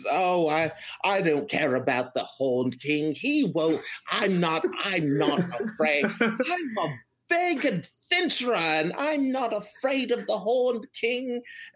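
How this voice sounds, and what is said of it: Character voice impression. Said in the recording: “voice impression ... That's a surprisingly good impression.”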